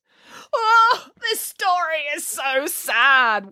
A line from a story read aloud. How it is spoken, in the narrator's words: wailed Boris